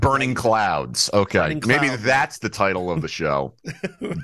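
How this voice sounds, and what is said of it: Usual voice. Nothing is said of it.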